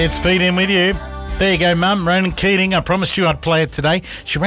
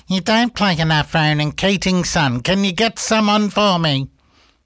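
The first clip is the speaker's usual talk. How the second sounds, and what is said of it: Imitates another person's voice. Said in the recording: “She doesn't really sound like that, but that's my best impersonation I can do”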